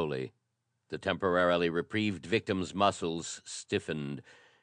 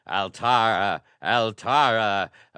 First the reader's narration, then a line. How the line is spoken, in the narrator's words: A rising hurricane of impassioned human voices thundered the name